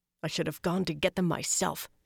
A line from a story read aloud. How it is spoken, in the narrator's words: growled bitterly